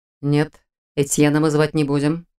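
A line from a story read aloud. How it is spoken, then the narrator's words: Quiet objection. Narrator (Russian): тихо возразил Шелтер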